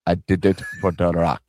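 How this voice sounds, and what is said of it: Put-on accent that slips badly. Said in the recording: “That accent switched terribly.”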